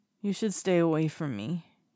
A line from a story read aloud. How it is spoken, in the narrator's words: he mumbles